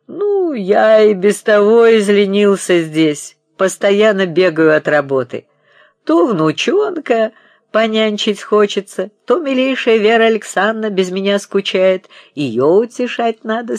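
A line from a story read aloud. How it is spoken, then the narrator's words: Old man laughing. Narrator (Russian): смеялся старик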